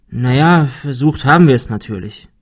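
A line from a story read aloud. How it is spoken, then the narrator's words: Sigh. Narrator (German): seufzte Ben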